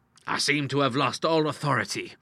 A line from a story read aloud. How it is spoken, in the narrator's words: he cried